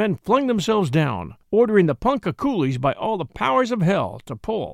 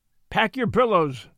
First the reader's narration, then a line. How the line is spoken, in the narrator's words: said the doctor sharply